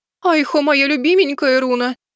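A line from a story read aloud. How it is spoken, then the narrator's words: Moaning. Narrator (Russian): простонала Азимандия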